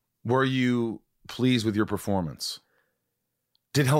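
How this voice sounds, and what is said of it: Usual voice. Nothing is said of it.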